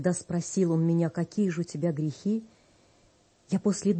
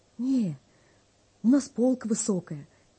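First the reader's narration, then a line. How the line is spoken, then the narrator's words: Frightened trembling voice. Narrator (Russian): Боясь поднять глаза, я дрожащим голосом отвечаю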